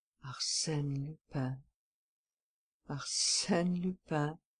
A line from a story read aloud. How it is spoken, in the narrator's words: he muttered